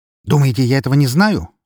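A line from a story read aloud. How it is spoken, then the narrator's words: Barked. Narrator (Russian): рявкнул на него адвокат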